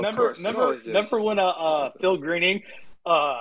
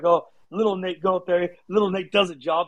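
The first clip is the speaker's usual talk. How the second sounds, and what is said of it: Imitated thick British accent. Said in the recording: “He would have that thick, thick British accent”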